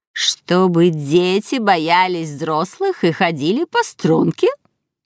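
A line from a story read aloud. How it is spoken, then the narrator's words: Creaky voice. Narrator (Russian): проскрипела Агнес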